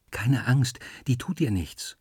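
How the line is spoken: Whispered into ear. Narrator (German): flüstere ins Ohr

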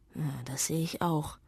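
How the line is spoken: Father murmuring. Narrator (German): murmelt der Vater

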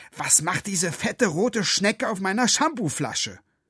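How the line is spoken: Angry woman. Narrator (German): sagte sie wütend

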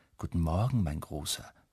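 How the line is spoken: Soft motherly voice. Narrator (German): sagt Mama leise

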